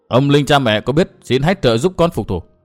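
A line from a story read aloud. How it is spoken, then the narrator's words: Cold faint laugh. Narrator (Vietnamese): Nguyên Bình cười nhạt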